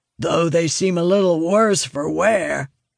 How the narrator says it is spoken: calls gruffly

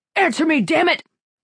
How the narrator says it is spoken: the man shouted

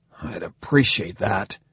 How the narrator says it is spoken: Jared said, through gritted teeth

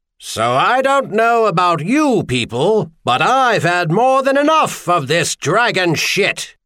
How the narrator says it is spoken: Patrick Henry shouted from his improvised speaker's perch on the municipal fire brigade cistern

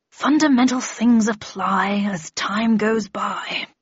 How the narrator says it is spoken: he said absently, muttering

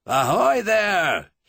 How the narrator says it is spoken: he bellowed across the tumbled waste of water

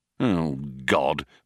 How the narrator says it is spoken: muttered Ford

